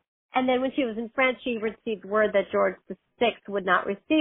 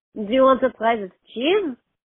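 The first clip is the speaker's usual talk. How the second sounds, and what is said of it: Cartoonish put-on French accent. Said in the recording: “I'm making it up. I've watched cartoons, and that's where my French accent comes from”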